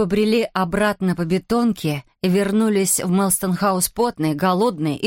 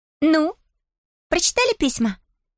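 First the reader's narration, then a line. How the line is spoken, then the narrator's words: Brisk cheerful question. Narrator (Russian): бодро спросила она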